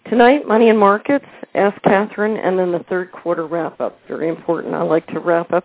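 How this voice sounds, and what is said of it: Slightly funny, sick-sounding voice. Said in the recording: “Forgive my voice. ... I got the flu this week, so I'm recovering, but I sound a little funny.”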